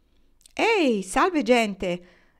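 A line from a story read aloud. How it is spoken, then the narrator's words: Nearby voice exclaiming. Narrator (Italian): esclamò una voce poco distante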